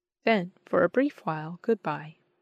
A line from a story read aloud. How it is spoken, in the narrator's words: said my brother kindly